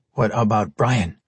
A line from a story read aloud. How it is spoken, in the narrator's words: Renlu asked, in a deceptively quiet tone